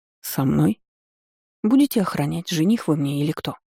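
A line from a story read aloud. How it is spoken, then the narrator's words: Sleepy muffled mumble. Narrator (Russian): Сонно пробормотала, усердно утрамбовывая щеку в подушку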